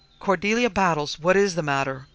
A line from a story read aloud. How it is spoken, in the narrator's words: cried Mrs